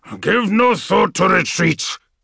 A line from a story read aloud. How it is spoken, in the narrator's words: the old wolf snarled